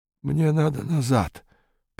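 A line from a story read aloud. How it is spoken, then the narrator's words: Stranger muttering. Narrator (Russian): пробормотал незнакомец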